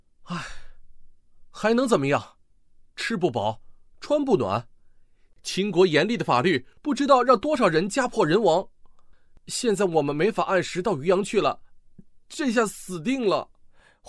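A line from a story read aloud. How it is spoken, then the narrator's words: Stunned, sighing. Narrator (Chinese): 吴广被陈胜的问题问得一愣，叹了口气，答道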